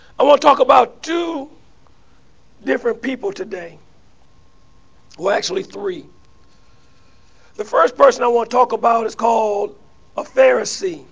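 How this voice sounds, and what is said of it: Slightly raspy, hoarse voice. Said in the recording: “I'm a little raspy”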